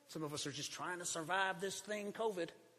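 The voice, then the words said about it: Southern US accent. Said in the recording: “I don't know why I do the southern accent.”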